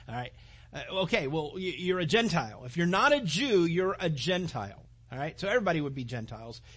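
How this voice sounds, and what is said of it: Usual voice. Nothing is said of it.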